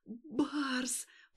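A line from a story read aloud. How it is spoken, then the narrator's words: Moaned on an exhale. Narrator (Russian): простонала она на выдохе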